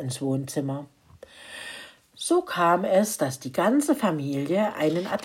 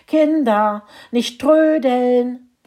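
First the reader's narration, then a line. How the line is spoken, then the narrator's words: Mother calling from ahead. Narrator (German): rief ihre Mutter ganz vorne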